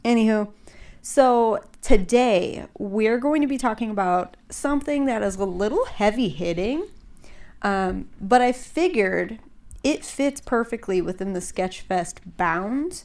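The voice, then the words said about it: Slightly congested voice. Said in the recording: “I sound a little congested. I'm a little congested.”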